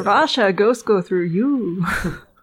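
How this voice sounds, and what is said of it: Imitates another person's voice. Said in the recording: “great Yakov impression”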